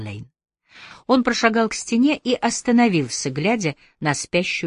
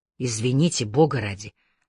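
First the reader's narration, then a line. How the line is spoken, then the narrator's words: Mutter. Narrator (Russian): пробормотал Аллейн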